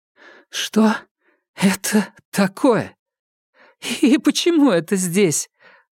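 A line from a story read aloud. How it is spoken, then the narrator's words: Sudden laughter. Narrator (Russian): Она вдруг рассмеялась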